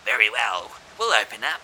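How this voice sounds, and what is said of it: Goblin character voice. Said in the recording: “A goblin voice says,”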